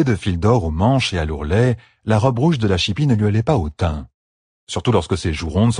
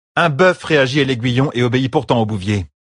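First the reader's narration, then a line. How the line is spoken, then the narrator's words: Curt. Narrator (French): dit sèchement Dagelin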